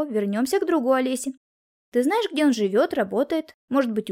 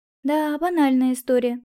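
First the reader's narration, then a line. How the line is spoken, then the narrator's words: Sighing. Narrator (Russian): вздохнула в свою очередь я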